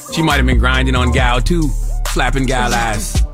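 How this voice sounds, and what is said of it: Put-on accent. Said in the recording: “what accent was that?”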